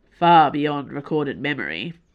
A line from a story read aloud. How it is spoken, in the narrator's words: Athos said solemnly